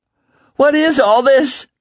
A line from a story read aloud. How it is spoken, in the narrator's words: Lila screamed